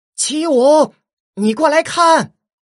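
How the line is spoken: Calling out far. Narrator (Chinese): 他…对着远处喊道

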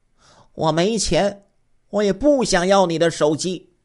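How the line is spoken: Old woman, louder. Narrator (Chinese): 这老太太 声音更大了

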